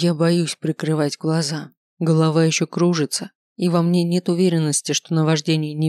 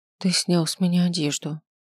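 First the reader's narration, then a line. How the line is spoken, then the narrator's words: Quiet. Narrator (Russian): говорю тихо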